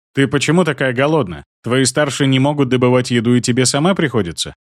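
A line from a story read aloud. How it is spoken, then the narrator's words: Blunt, sympathetic question. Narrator (Russian): Спросил я просто и в лоб, но не обвинительным тоном, а сочувственным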